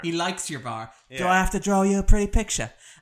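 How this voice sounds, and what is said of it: Put-on accent imitating film character. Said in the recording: “sorry about the accent”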